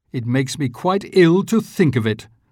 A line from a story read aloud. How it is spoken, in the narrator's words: said Grandma Josephine